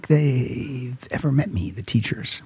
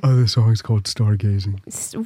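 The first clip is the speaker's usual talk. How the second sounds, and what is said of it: Dumb cartoon character voice. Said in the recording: “You sound like Patrick from SpongeBob. ... this is a dumb voice I do”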